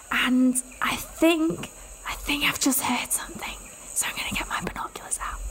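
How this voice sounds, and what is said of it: Whispering. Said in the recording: “I'm whispering... I feel like I'm trying to whisper... I'll talk quietly.”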